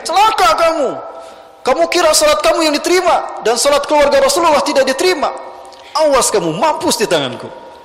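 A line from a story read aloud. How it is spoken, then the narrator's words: Shouting. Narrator (Indonesian): Ibnu Mutahhir berteriak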